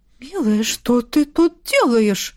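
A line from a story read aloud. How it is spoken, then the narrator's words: Bewildered question. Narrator (Russian): растерянно спросил барон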